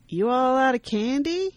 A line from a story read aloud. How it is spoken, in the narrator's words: with a chuckle